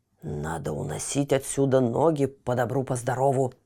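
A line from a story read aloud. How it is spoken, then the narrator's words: Whisper. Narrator (Russian): прошептала пугало на ухо ниточке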